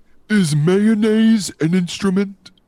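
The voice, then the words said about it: Patrick Star impression. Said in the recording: “was that your Patrick impression? ... That was Patrick.”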